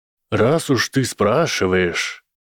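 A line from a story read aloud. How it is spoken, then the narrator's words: Thoughtful drawl. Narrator (Russian): задумчиво протянула Амелия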